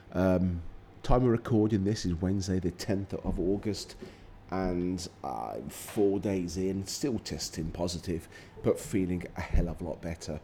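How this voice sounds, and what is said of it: Croaky, sick-sounding voice. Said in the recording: “my voice sounds a bit croaky ... COVID has got me”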